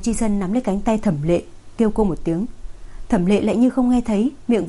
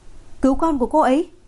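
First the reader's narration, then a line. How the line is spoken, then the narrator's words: Sudden agitated shout. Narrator (Vietnamese): Thẩm Lệ lại đột nhiên cảm xúc kích động hét to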